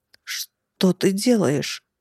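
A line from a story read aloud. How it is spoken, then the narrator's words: Hoarse rasp, blade at throat. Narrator (Russian): прохрипел тот, когда острое лезвие прижалось к беззащитному горлу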